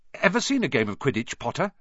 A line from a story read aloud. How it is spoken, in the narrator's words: he asked excitedly